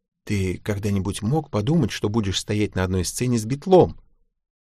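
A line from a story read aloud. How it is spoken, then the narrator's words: Whispered. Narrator (Russian): Шерон прошептала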